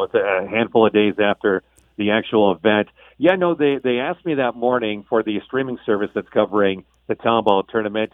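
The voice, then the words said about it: Hoarse, worn-out voice. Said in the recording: “my voice is still hashed”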